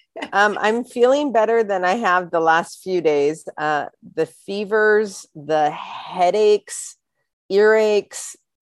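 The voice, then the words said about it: Slightly congested voice. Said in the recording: “you sound a little congested”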